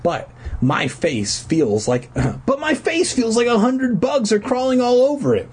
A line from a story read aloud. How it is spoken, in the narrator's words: he wailed while detoxing from heroin